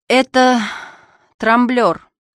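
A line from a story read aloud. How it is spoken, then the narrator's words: Gloomy remark. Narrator (Russian): Антон мрачно заметил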